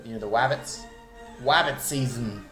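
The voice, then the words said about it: Weak cartoon 'wabbit' impression. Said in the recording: “Can't do his impression very well”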